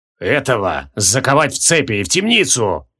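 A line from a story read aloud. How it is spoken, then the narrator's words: Growling command. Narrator (Russian): прорычал барон Джориан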